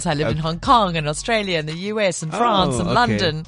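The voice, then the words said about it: Mixed, European-sounding English accent. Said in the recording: “my accent's now weird ... such a chamorche of an accent ... your English accent is quite, European.”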